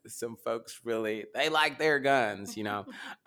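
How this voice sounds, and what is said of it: Put-on country accent. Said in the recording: “I say that in a kind of country accent”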